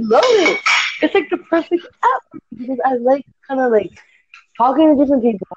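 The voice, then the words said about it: Mixed shifting accent, partly Scottish. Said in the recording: “Your accent is now bugging me. Scotland. ... You're Scottish, aren't you? ... I do sound a little Scottish, right? ... Your accent is going all over the place. One moment I thought it was like Sweden and North European, then I thought it was like Scottish, and then I thought it was Irish, and then there was a bit of like Northern American in there, so it's all over the place.”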